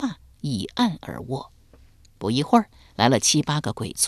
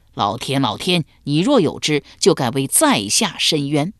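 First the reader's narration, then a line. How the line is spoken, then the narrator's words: Loud cry. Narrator (Chinese): 且大声叫道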